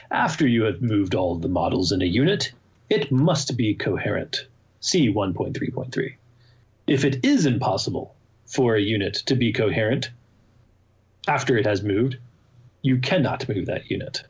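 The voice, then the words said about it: Put-on fancy reading voice. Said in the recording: “In your fancy voice.”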